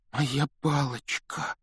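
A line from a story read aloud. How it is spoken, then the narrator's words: Trembling voice. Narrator (Russian): дрожащим голосом произнес Рон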